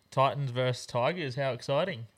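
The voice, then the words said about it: Sarcastic tone. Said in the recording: “Are you being sarcastic?”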